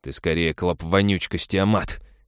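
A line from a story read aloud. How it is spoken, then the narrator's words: Snort. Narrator (Russian): фыркнул Халик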